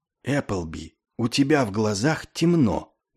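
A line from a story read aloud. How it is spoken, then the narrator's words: Friendly whisper. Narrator (Russian): доброжелательно шепнул он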